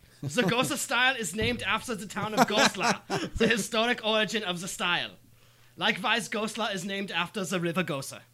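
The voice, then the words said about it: Aggressive put-on German accent. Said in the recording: “sounds exactly like how a German would read it ... your German accent is very aggressive”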